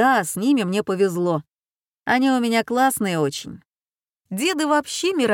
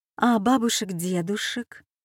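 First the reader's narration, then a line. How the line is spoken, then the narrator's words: Quiet clarifying question. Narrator (Russian): тихо уточнила Дина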